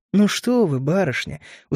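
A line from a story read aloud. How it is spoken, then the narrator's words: Smirking. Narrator (Russian): усмехнулся я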